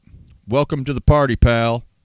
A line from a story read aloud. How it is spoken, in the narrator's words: John yelled with delight